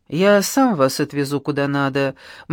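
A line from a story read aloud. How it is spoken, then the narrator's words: Gloomy. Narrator (Russian): мрачно отвечал менеджер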